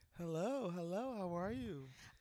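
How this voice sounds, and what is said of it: Professional radio voice. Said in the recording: “you and this voice ... This is my radio voice ... It's so professional, though.”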